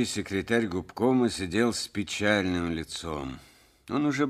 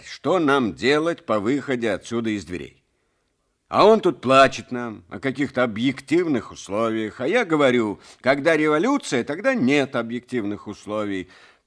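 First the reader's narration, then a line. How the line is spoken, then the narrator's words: Angry clipped speech. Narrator (Russian): уже сердито отчеканивал секретарь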